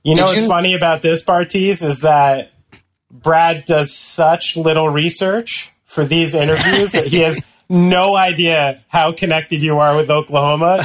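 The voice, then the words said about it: Slight lisp, New Jersey accent. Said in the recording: “the one with the slight lisp, who sounds like he's really from New Jersey”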